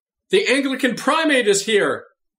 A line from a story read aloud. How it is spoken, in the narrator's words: A fervent young woman student exclaimed